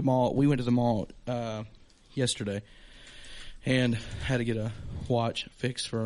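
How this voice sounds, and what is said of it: Usual voice. Nothing is said of it.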